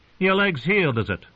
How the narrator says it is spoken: Noy snorted

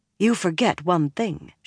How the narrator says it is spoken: she told him tightly

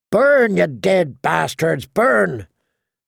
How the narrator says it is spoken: Dywin sang out, cackling

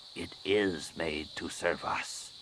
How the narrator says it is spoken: she said quietly

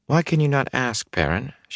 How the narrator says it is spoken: said softly

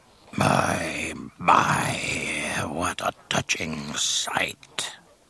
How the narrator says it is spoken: Jabba purred

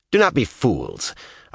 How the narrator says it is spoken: Avienda said in a firm voice

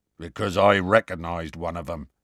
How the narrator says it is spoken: Hagrid growled

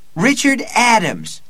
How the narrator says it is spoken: Eddie shouted

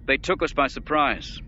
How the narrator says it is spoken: the Grand Admiral said irritably

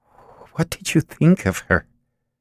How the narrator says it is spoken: Strikerock stammered

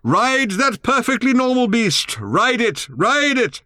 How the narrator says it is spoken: Ford shouted in Arthur's ear

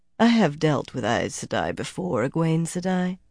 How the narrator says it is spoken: the other woman said dryly

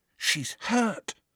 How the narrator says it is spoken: Harry whispered

